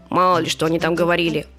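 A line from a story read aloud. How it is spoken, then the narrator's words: Dog's gruff grumble. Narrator (Russian): буркнул пес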